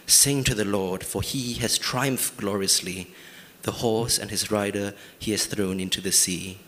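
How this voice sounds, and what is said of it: Reads with a distinct accent. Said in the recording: “It's a wonderful accent,”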